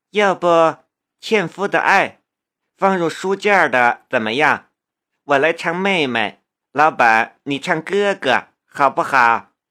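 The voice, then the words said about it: Sweet, cloying female voice. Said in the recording (Chinese): “用甜腻的声音说道”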